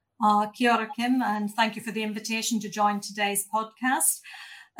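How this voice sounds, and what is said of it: Irish accent. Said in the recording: “you'll hear from my accent and hopefully you'll guess that I'm not originally from Aotearoa. So I started my life back in Ireland”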